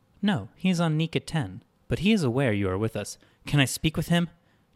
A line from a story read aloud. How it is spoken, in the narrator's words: she asked